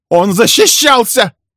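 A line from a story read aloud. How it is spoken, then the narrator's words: Furious shout. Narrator (Russian): яростно крикнула Милли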